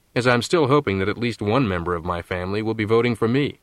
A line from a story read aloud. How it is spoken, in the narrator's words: said Fletcher firmly